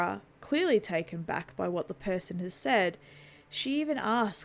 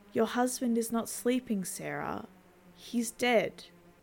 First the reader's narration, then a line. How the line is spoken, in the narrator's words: The voice responds calmly but firmly